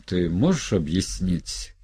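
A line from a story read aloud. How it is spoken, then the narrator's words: Quiet cheerful nasal laughter. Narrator (Russian): Мария засмеялась, смеялась негромко, весело в нос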